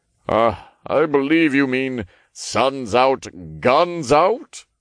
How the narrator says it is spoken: Raphael chuckled

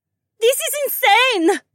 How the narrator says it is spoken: another woman screeched

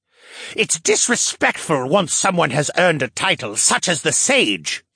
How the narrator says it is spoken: he snarled

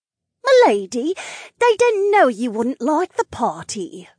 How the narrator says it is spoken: one of the ladies chirped

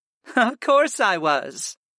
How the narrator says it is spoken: Sarah laughed lightly

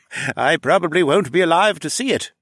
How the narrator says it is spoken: Redmond chuckled

